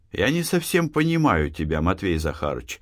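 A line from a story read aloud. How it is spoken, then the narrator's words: Soft, gentle. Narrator (Russian): мягко сказал Беляев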